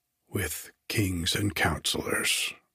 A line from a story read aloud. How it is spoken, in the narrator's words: murmured I